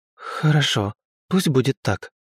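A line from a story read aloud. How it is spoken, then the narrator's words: Relieved exhale. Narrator (Russian): облегченно выдохнула Лина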